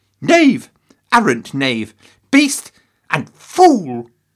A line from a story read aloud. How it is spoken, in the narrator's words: Henry thundered